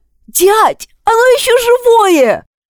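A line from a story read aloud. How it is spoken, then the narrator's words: Shrill boy's squeal. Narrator (Russian): взвизгнул пацан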